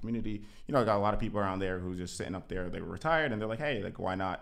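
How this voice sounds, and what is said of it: Jamaican West Indian accent. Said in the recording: “You West Indian? ... So yeah, the accent ... So I'm Jamaican and West Indian”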